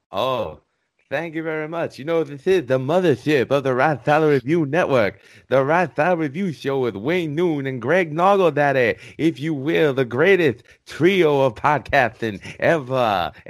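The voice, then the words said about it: Dusty Rhodes impression. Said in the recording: “Yeah, that's pretty good. I thought Dusty Rhodes was right here.”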